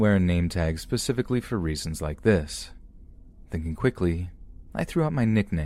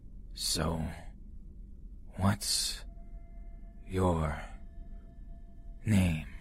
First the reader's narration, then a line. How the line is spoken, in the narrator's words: in a slow, raspy voice, asked